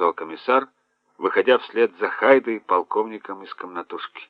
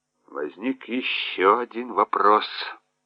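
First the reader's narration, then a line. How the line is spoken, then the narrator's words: Muttering. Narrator (Russian): пробормотал он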